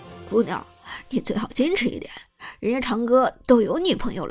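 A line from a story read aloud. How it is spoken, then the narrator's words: Chuckling. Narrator (Chinese): 张哲伦嘿嘿一笑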